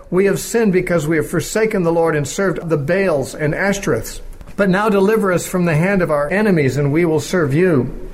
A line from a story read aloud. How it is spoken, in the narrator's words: they cried out to the Lord and said